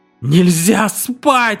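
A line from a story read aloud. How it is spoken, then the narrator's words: Wailing yell. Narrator (Russian): вопил Сейл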